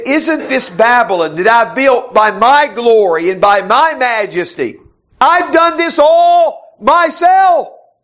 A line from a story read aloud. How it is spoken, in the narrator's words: says